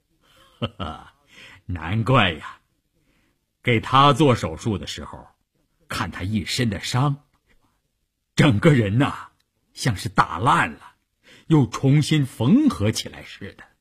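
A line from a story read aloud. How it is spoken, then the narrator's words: Amused, smiling. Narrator (Chinese): 医生笑着说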